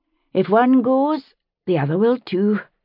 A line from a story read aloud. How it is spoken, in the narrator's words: Massali said, sighing